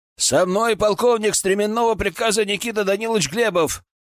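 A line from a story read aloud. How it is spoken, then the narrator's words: Shouted. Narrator (Russian): крикнул я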